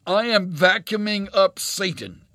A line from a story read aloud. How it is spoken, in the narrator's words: Over the slight roar of her little vacuum cleaner, Colleen said in a loud voice